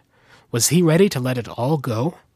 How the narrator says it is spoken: Chris sighed

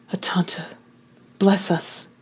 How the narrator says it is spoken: I whispered, evoking the cavalry prayer for battle

